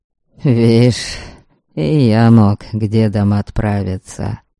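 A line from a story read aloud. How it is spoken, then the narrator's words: Sigh. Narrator (Russian): вздохнул Ваята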